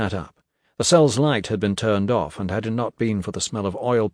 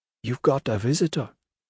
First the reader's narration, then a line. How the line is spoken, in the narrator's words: Pi, who murmured